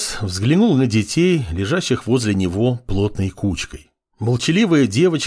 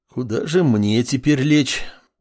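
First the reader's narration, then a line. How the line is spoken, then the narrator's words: Tired leader. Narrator (Russian): Устало произнес предводитель сил ордена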